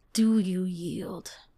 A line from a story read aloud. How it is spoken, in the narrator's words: She growled